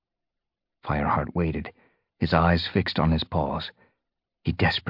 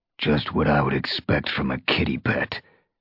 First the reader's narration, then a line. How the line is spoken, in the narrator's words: growled Darkstripe